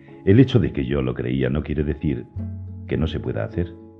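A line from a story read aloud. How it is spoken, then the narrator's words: Plain. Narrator (Spanish): dijo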